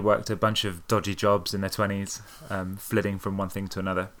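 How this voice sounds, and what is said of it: British accent. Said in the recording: “From in the UK where I grew up, which you could probably hear in my accent”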